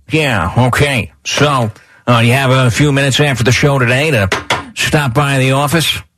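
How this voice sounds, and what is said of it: Late-night talk show host voice. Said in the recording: “It sounds like you're doing a late night show impersonation.”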